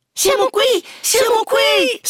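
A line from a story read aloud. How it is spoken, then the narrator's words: Children shrieking. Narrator (Italian): strillarono i fanciulli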